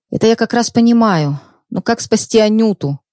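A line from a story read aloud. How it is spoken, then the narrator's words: Young man's moan. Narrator (Russian): простонал парень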